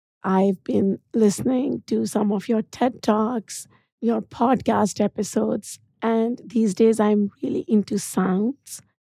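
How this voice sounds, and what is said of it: Raspy, nearly lost voice. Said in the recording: “my weird voice ... Raspy is the new thing ... my voice is gone”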